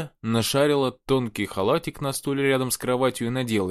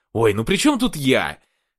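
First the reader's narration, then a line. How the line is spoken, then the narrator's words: Exclaimed. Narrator (Russian): воскликнул он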